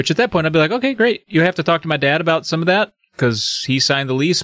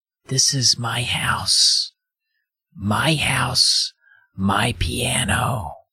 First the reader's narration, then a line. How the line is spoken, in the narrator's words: she says, through a whisper